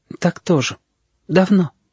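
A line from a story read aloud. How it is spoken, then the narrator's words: Sudden quiet words. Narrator (Russian): вдруг тихо сказал Ножик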